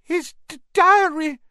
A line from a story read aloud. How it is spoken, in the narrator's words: Ginny sobbed